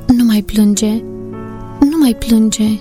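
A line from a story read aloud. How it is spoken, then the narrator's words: Tender, soothing. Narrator (Romanian): îl liniști cu tandrețe în glas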